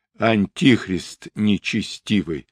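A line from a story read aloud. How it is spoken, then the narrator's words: Cursing through clenched teeth. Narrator (Russian): ругнулся сквозь зубы Мстислав Романович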